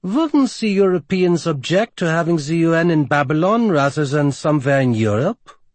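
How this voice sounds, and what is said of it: Thick Romanian accent. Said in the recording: “In her thick Romanian accent,”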